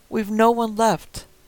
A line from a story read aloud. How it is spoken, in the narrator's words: an old voice called out from inside